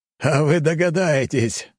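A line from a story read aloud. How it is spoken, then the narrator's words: Laughing loudly. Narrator (Russian): захохотал граф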